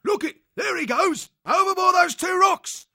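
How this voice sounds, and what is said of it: Passable cat accent, shouted excitedly. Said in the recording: “In a passable cat accent, Letho shouted out excitedly.”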